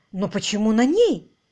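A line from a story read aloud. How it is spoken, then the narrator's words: Exclaimed. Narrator (Russian): воскликнул инспектор Марч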